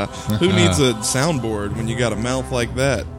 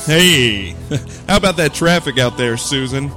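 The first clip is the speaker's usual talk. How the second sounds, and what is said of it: Generic radio announcer voice. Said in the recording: “Generic radio voice.”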